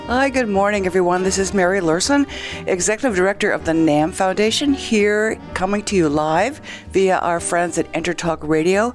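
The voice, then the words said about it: Slightly hoarse, low-energy voice. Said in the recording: “my voice is a little bit hoarse, and my energy is a little bit lower”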